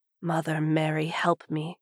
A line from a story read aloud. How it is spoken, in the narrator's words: mutters